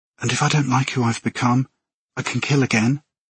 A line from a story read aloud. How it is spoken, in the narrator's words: I barely breathed the words